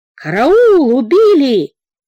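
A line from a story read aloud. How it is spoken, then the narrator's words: Bear's roar. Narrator (Russian): взревел медведь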